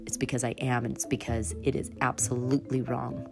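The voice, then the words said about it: Upset, agitated voice. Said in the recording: “And if I sound upset,”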